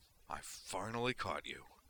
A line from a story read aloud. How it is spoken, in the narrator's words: Griffin snarled through his teeth